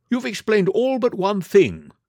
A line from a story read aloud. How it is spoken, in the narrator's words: cried the colonel